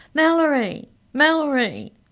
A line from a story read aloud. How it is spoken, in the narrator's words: he cried